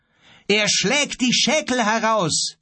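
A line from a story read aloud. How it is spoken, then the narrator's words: Calling out. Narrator (German): rief Grief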